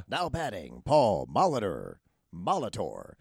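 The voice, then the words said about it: Stadium announcer voice. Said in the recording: “the voice of the Milwaukee Brewers. You know, the stadium voice? ... he would do that”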